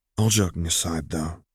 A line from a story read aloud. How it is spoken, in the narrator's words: he whispered to Alun